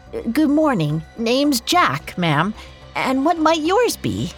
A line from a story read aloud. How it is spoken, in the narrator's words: Doing his best to keep his voice from trembling, he said